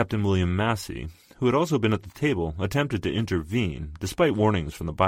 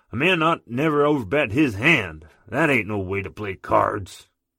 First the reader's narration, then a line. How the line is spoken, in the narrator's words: Hickok reportedly grew incensed and bellowed